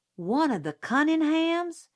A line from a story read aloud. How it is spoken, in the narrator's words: Jim yelped